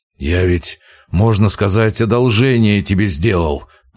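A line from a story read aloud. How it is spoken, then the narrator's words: Growl. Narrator (Russian): прорычал Вяземский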